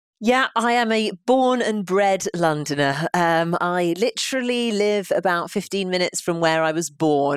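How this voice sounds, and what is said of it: British accent. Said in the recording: “you sound British.”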